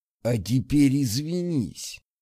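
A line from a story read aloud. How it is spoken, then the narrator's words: Hissed, male. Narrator (Russian): прошипел он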